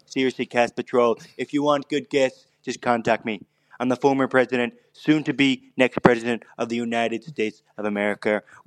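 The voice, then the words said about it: Imitates another person's voice. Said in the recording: “That was a good impersonation. Very good. ... It's a fucking huge impersonation. ... Yeah, it's someone doing that.”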